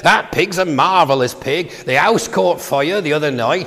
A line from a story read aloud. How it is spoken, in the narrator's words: he said